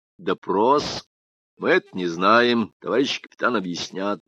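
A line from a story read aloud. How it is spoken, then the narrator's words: Tentative voice. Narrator (Russian): Аркадий Заварзин спрашивает предположительным голосом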